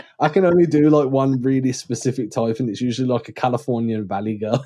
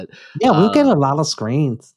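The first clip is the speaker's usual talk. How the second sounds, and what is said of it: Put-on American accent. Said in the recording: “Was that your American accent?”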